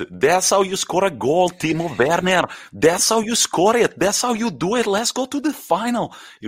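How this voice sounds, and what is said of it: Put-on Portuguese accent. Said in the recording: “I love the Portuguese accent.”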